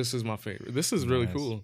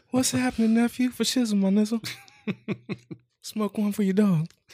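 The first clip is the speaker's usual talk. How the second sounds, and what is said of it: Bad high-pitched impression of another person. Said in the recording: “terrible Snoop Dogg impression ... He got really high-pitched ... like Michael Jackson impersonating Snoop Dogg”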